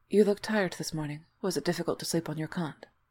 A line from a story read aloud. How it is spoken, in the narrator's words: Will kept his tone flat